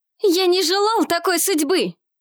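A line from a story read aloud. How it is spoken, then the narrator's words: Shouted. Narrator (Russian): прокричал Евсей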